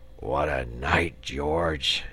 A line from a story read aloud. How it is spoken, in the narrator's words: he murmured